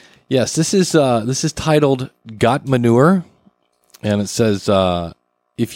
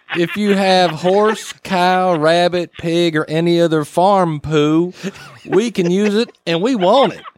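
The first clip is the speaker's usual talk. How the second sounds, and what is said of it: Put-on Southern American accent. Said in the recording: “you need to do your best Southern accent”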